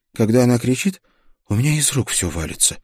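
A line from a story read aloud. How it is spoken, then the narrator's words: Young guard's grumble. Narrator (Russian): буркнул молодой страж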